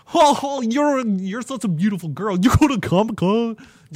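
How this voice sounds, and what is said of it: Exaggerated nerdy character voice. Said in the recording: “playing like the whitest nerd you could have ... But like even more amped up. Like I'm not being out there enough with my impression.”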